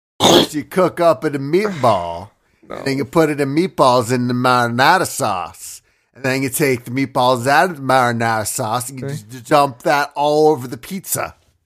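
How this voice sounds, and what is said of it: Exaggerated Italian Mario-style accent. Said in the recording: “Accent that's just like sexy Mario? ... So Mario. ... Yeah, Mario.”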